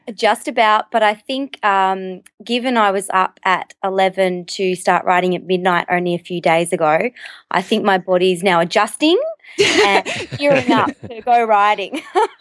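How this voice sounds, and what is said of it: Australian accent. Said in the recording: “I just love your accent. I love all the Aussie accents.”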